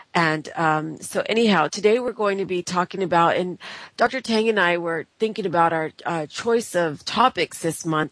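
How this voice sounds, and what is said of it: Sick-sounding, congested voice. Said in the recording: “Please excuse my voice today. I got the flu bug actually got me. ... just now have a cold.”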